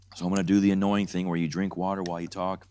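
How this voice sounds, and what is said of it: Weak, strained, mostly lost voice. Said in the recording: “you can tell my voice is not here”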